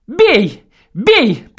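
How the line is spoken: Fierce man's voice. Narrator (Russian): подхватил мужик свирепым голосом

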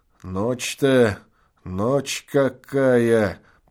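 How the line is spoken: Muttering. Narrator (Russian): пробормотал он

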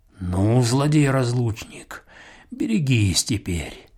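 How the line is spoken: Muttering. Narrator (Russian): пробормотал он

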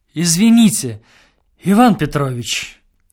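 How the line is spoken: Pleading. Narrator (Russian): обратился к нему директор умоляющим голосом

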